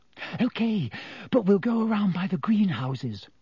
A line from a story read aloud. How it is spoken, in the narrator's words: said Hermione breathlessly